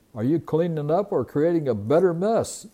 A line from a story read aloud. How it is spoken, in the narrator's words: He smiled as he chuckled at the boy